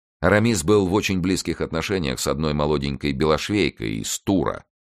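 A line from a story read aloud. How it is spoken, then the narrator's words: Plain. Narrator (Russian): сказал он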